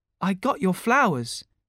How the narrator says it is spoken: said warmly

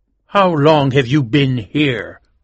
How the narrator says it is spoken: asked angrily

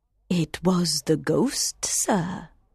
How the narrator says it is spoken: the box keeper said quietly

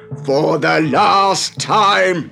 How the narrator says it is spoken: shouted

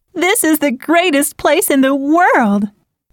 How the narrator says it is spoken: They laughed as the wind blew their hair, and Marianne cried

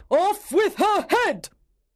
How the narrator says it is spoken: She shouted

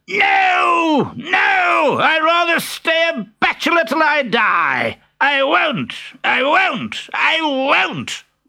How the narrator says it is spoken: shrieking

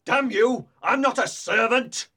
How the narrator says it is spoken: cried Hareton furiously

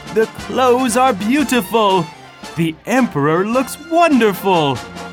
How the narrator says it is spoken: The people in the streets called out

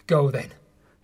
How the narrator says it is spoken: he said coldly

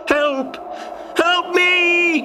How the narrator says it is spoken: shouted Ben

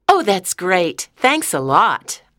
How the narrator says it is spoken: said happily

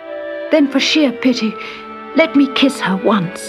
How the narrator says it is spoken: begged the prince

